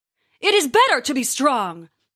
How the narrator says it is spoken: Thor bellowed

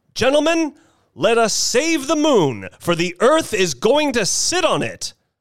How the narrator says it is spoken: I exclaimed

